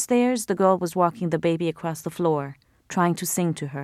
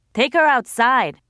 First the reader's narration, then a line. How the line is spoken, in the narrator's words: Rashid yelled over his shoulder